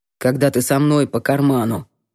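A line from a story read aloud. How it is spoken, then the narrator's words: Cold mutter. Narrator (Russian): Холодно буркнул Гордеев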